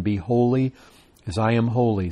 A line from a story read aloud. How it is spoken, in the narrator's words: says the Lord